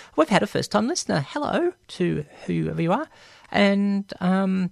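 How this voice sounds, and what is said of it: Usual voice. Nothing is said of it.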